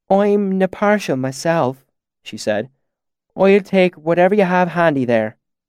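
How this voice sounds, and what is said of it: Imperfect put-on accent, long O's. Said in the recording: “Her accent wasn't perfect, a little too long on the O's and too tight in the back of the throat, but it was really quite good.”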